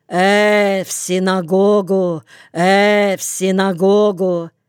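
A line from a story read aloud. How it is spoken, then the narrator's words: Wide-mouthed nasal calling. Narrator (Russian): Слушка широко раззевая бородатый рот, гнусавил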